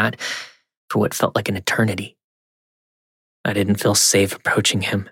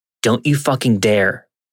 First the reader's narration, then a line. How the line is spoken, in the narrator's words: I yelled